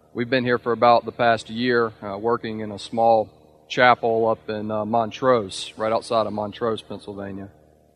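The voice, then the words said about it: Mississippi Southern American accent. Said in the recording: “my accent's a little bit different than what y'all may be used to. I'm originally from Meridian, Mississippi”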